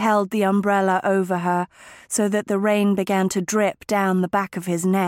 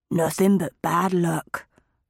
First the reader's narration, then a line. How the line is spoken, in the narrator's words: murmured her husband